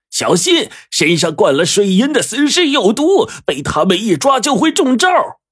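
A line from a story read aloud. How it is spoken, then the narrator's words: Shouting. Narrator (Chinese): 黄队大叫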